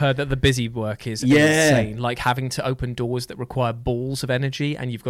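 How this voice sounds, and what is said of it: Usual voice. Nothing is said of it.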